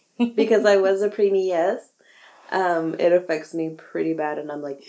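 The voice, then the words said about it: Slightly rough, sick-sounding voice. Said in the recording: “My voice is a little shoddy today, so I apologize if I sound, you know, a little different from my normal sexy sensual self ... I think it's the cold”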